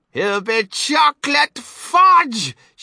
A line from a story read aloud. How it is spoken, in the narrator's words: shrieked Mrs